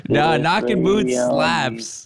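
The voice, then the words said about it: Exaggerated country accent. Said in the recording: “Hit the hardest country accent on that, too. ... my country accent”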